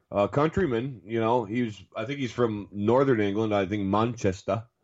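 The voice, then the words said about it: Put-on Northern English accent. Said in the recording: “I just did a good accent for that”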